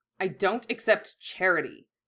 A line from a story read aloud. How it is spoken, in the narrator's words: Malfoy snapped